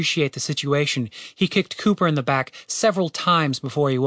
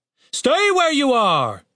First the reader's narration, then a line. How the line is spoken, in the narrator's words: shouted the captain